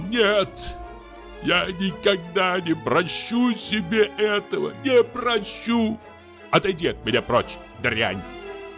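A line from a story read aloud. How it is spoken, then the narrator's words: Shouting in disgust. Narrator (Russian): крикнул он с отвращением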